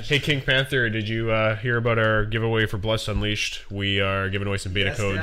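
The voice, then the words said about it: Dad radio voice. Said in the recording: “I have that dad voice. ... you do have that dad voice. ... I have the dad radio voice.”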